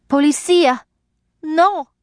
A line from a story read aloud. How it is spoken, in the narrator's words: she cried